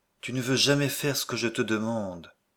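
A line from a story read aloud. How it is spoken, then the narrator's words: Weak, displeased voice. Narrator (French): dit-elle d'une voix faible et mécontente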